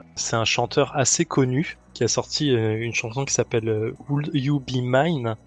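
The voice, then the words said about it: Heavily accented English pronunciation. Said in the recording (French): “j'ai un accent de merde, je le sais”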